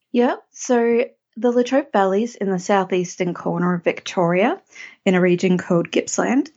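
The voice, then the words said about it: Australian accent. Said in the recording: “every time I have an Australian person on my podcast, I just love your accent.”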